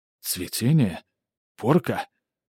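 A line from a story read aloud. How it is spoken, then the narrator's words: Hoarse rasp. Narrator (Russian): прохрипел поэт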